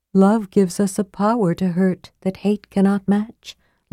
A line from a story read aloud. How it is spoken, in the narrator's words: Lorana said softly